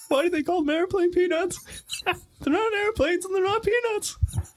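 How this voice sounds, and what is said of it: Imitates another person's voice. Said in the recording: “my impression of Jerry Seinfeld”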